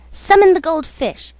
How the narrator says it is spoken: commanded haughtily

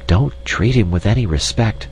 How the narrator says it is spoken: whispered Miss Chim to the insect

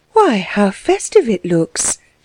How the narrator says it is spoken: exclaimed, wondering

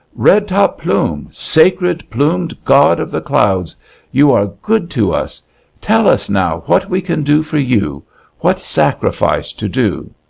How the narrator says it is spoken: the people exclaimed in hushed voices, and the Kootenai, questioner of gods and unafraid, cried out

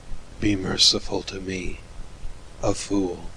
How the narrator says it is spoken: the king murmured low

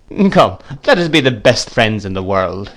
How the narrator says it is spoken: said the gentleman, laughing

